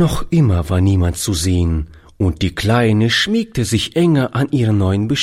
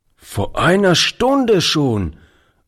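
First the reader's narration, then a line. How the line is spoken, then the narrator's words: Old man calling out. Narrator (German): rief der Alte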